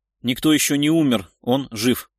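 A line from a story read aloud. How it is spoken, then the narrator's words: Stubborn hiss through teeth. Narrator (Russian): Упрямо процедил Шувалов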